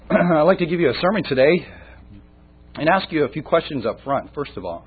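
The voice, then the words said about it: Weak, recovering voice. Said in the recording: “forgive my voice. I'm just getting it back, so I might be a little weaker than normal.”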